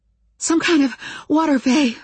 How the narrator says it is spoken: I told him, panting hard and coughing with the force of my breathing

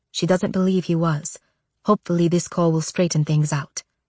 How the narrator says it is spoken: I whisper to Zofia

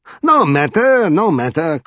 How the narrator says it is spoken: cried the king cheerfully

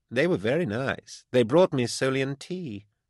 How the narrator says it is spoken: Beckwin purred

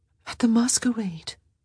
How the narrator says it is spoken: she said, her voice uncharacteristically shaky

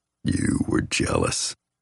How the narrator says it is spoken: murmurs in my ear

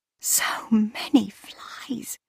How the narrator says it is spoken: whispered Cassiel

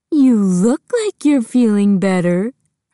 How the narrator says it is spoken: her mom said, still in the baby voice

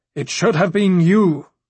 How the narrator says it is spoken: the Sea Snake shouted

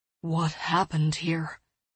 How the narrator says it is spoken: he asked quietly

